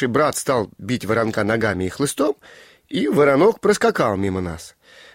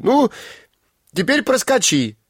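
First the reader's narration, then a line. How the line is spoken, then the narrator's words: Group shout. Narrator (Russian): мы закричали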